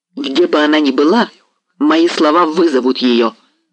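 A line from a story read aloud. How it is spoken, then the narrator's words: Firm. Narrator (Russian): произнесла твердо Марианна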